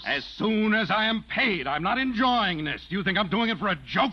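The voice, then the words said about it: Yelling angrily. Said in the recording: “Stop yelling! ... Don't raise your voice”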